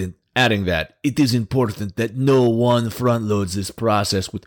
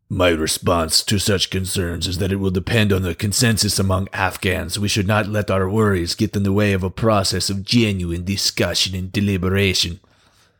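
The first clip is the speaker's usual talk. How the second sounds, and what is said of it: Put-on evil villain accent. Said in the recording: “It's my best evil accent.”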